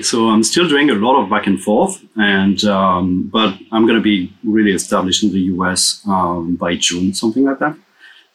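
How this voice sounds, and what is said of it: Non-American accent. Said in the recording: “your accent is not from the States.”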